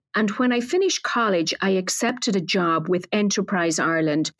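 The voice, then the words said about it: Irish accent. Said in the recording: “I'm a native of Ireland, as the accent may betray”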